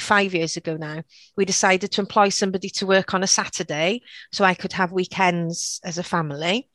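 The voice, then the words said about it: Mild Welsh accent. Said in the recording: “you've got such a lovely accent ... I sound Welsh to non-Welsh speakers, but if you go to a more Welsh speaking area, I sound quite English apparently”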